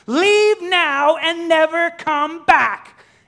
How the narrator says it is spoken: screaming in frustration

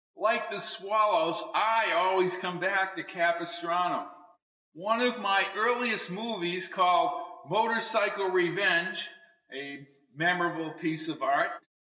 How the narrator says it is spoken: said as people laughed

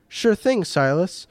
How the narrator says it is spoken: Matthew exclaimed

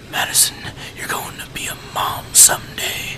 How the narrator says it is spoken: he whispered in my ear

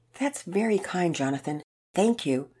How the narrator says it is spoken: Sarah responded, trying to keep her voice cool and even

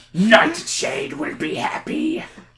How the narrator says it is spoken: he grunts

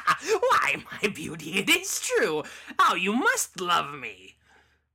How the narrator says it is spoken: Cackling all the while, the loathsome beggar

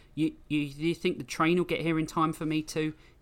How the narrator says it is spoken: He stammered

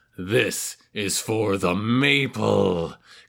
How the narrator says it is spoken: Clifford was hissing

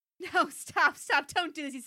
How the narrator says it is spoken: he said, laughing

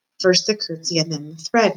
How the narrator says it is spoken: Meg muttered

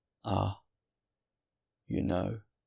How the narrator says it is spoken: The stranger turned round and replied gently

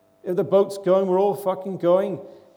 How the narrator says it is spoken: he cried out

